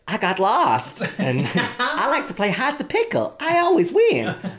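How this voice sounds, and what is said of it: Poor imitation of another person's voice. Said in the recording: “because that was a terrible impression.”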